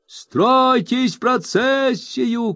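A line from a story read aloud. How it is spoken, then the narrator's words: Group shouting. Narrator (Russian): кричали 20 членов комитета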